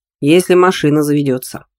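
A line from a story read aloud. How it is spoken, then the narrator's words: Snort with relieved sigh. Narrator (Russian): хмыкнул Шельга, украдкой испуская вздох облегчения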